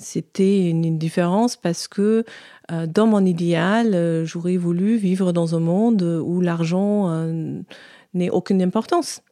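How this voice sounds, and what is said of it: German accent speaking French. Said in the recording (French): “Vous l'aurez peut-être deviné à son accent, elle est d'origine allemande.”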